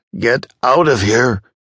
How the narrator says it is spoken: shouted the patient, shaking with emotion

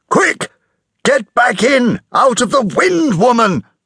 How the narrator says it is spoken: shouted

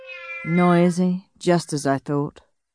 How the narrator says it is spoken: grumbled Sourpuss

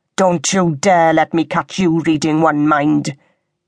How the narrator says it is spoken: thundered

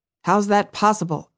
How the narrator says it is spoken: Aaron asked

